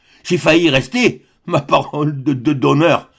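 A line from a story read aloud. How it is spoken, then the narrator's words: Stammered. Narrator (French): bégaya-t-il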